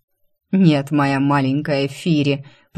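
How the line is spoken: Growling. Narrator (Russian): прорычал Фар

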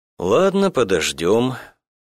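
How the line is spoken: Sighing. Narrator (Russian): Туманов вздохнул

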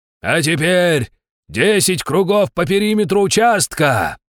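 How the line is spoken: Man shouting commands. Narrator (Russian): крикнул мужик-инструктор

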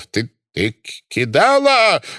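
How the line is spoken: Roaring. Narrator (Russian): взревел Фридман

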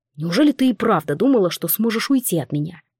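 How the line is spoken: Plain. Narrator (Russian): спросил герцог

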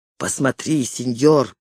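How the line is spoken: Whisper. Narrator (Russian): прошептал он

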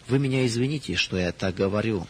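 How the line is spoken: Sad. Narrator (Russian): сказала она грустно

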